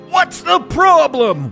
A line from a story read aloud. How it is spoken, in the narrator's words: One yelled